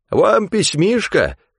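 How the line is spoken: Cheerful exclamation. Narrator (Russian): воскликнул, улыбаясь шире своей шляпы

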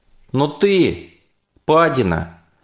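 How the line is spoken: Shouted. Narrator (Russian): крикнул

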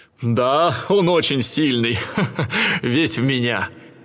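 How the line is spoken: Laughing. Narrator (Russian): Зевс засмеялся и сказал

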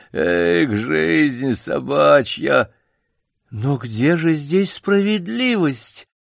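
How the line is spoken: Melancholy plaintive drawl. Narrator (Russian): Мышастый док с меланхолическим видом протянул плачевным голосом

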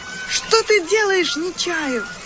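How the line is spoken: Shouting. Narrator (Russian): закричала Ирма

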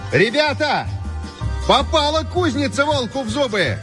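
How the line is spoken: Shout. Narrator (Russian): крикнул Антоний

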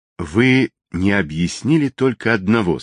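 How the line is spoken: Plain. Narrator (Russian): сказал полковник

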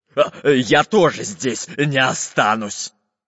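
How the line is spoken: Barked. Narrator (Russian): рявкнул Буль-Буль

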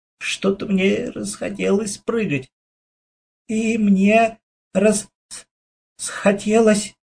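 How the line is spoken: Stuttering agreement. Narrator (Russian): заикаясь, согласился

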